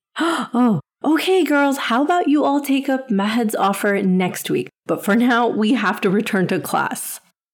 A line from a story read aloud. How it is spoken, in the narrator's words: Sister Khadija exclaimed